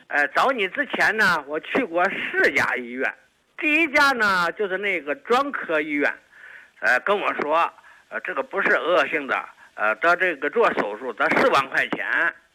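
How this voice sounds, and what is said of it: Hebei regional Mandarin accent. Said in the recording (Chinese): “我听的口音好像是河北的朋友是吗？... 我那是河北沧州的”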